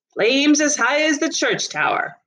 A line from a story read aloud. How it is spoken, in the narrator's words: one woman said